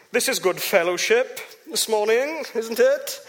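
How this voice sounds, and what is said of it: Posh put-on accent. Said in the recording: “If you say with a posh accent, it sounds a bit different, doesn't it?”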